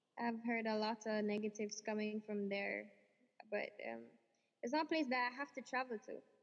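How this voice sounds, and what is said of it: Usual voice. Nothing is said of it.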